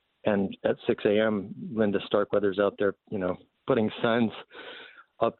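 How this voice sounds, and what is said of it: Choked-up, emotional voice. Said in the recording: “Sorry, I'm getting choked up.”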